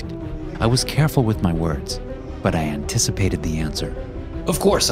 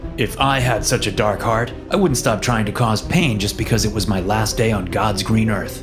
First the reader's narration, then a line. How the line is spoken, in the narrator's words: he sneered